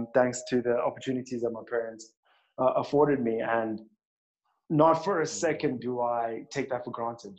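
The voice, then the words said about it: Twang from private schooling. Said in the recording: “you can hear by my twang. I went to a very decent school.”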